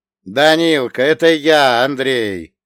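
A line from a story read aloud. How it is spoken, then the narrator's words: Shouted with laughter. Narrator (Russian): со смехом прокричал я дедовскому послужильцу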